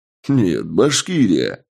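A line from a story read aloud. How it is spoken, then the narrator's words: Laughing. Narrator (Russian): рассмеялся я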